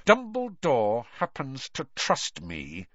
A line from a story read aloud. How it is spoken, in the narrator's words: said Snape through clenched teeth